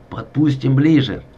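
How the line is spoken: Plain. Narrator (Russian): говорит Хремян

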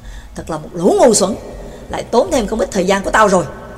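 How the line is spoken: Low muttering. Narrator (Vietnamese): người trẻ tuổi thấp giọng lầm bầm

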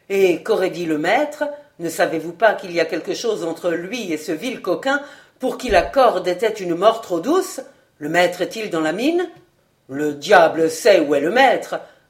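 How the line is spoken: Gruff reply. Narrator (French): répondit Livaudray d'un ton bourru

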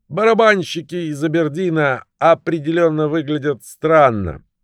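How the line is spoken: Shouting. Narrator (Russian): парень с иракезом заорал

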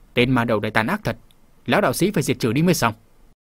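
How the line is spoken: Resentful muttering to himself. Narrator (Vietnamese): lão đạo sĩ hậm hực lẩm bẩm tự nói

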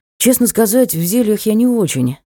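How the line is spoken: Sigh. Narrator (Russian): вздохнул Ник

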